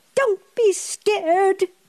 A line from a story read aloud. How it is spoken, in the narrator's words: cried Pippi